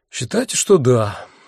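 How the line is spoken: Sighing. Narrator (Russian): вздохнул я

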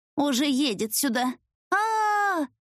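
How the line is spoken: Scream. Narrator (Russian): закричала

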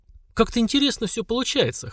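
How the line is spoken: Wry snort. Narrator (Russian): хмыкнул Слава

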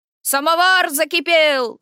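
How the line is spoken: Shouted from outside. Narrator (Russian): крикнул Василий со двора

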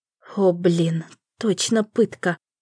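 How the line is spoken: Forced out with effort. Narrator (Russian): только и смогла выдавить я из себя

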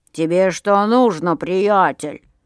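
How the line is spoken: Grumbling, growing angry. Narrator (Russian): заворчал Миша и тоже начал сердиться

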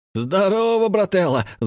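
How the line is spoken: Yelling. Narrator (Russian): заорал Валик

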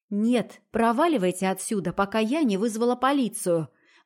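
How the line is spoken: Rude. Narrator (Russian): грубо сказала

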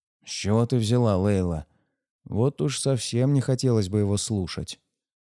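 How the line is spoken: Grumbling. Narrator (Russian): пробурчал Майба

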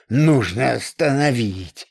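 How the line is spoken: Order through gritted teeth. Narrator (Russian): сквозь зубы приказал Логинов

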